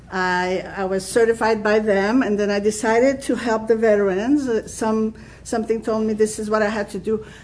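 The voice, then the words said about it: French-Canadian accent. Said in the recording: “obviously you can tell I have an accent. It's French-Canadian accent.”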